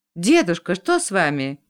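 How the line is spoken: Frightened exclamation. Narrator (Russian): испуганно воскликнула Марина

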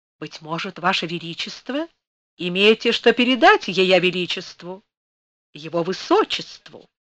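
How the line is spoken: Sweet, deferential courtier. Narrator (Russian): Он все тем же сладким, почтительным голосом опытного царедворца продолжал

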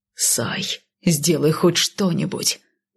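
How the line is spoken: Growled. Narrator (Russian): прорычал Кайл

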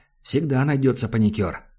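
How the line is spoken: Sighing. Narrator (Russian): Макс вздохнул

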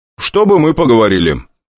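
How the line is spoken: Loud, casual speech. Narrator (Russian): как ни в чем не бывало, громко проговорил

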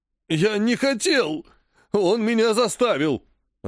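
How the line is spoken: Dry-throated whimper. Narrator (Russian): Захныкал Спурий, пытаясь протолкнуть слова через пересохшее горло

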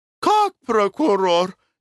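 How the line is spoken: Frightened question. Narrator (Russian): испуганно спросила Глафира Семеновна

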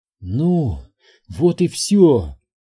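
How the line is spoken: Exhaled. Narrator (Russian): выдохнула Элизабет

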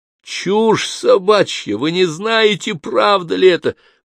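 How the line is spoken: Shouted. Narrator (Russian): прокричал Джордан

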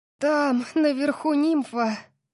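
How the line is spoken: Breathless. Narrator (Russian): выдохнула я

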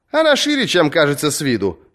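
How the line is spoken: Cheerful. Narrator (Russian): бодро говорила мальчику Мия

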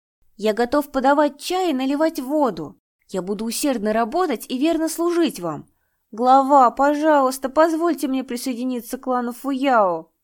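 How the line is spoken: Loud after deep breath. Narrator (Russian): Нянь Дада сделал глубокий вдох и громко сказал

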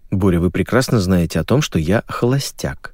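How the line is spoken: Quiet reply. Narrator (Russian): тоже тихо ответил я

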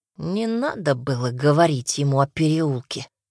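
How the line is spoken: Muttering. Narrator (Russian): бормочет он

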